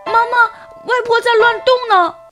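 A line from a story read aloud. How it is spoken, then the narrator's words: Nervous calling. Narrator (Chinese): 小乐 紧张地 叫妈妈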